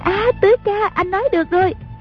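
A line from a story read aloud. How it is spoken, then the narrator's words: Cry out. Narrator (Vietnamese): A Bích la lên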